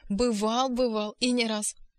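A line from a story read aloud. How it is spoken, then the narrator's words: Laughing exclamation. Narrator (Russian): вскричал он, смеясь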